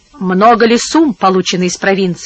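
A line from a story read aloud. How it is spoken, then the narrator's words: Plain. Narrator (Russian): спросил Кортецело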